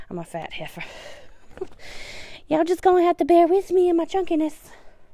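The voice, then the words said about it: Out of breath, breathing heavily. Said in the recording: “I know I'm out of breath. ... you won't even notice that I'm breathing heavy”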